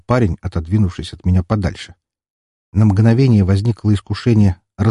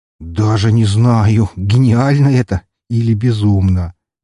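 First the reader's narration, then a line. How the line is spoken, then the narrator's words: Drawn-out. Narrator (Russian): протянул Макарыч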